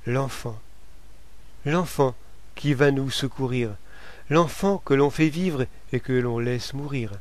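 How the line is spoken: Timid protest. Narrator (French): La femme dit, timidement, pour protester

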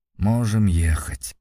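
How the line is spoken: Grumble. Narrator (Russian): буркнул Женя

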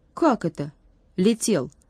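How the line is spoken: Stern girl's question. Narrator (Russian): строго спросила девчонка

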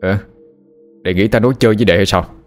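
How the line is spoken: Angry. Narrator (Vietnamese): Trần Linh đập bàn tức giận

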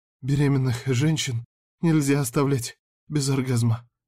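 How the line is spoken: Ragged breathless exhale. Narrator (Russian): Рвано выдохнула Милена

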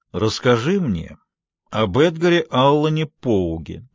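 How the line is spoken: Loud and clear. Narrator (Russian): громко и внятно говорит Марину

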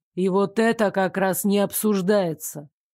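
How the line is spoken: Steely interruption. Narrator (Russian): Стальным голосом оборвал меня Нико

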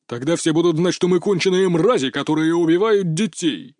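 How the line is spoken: Barked, barely restrained anger. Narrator (Russian): рявкнул на него босс, еле сдержав себя

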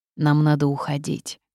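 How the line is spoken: Grumbling mutter. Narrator (Russian): буркнул Корвус

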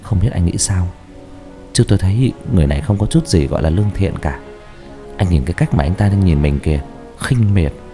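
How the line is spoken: Soft quiet speech. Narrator (Vietnamese): Trọng nói khẽ

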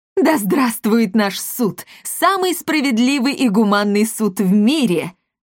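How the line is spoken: Joyful shout. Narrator (Russian): радостно крикнул Монпансье

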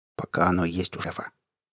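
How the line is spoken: Quiet confiding aside. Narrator (Russian): тихо, чтобы слышал только я, добавил

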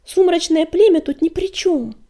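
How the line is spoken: Exclamation. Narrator (Russian): воскликнула Щербатая

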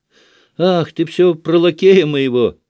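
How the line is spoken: Sudden laughter. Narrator (Russian): засмеялась вдруг Марья Тимофеевна

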